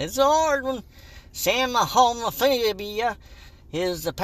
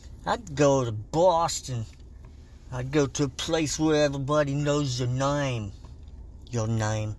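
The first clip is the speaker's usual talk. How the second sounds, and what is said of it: Poor put-on Boston accent. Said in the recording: “I can't do a fucking Boston accent to save my life.”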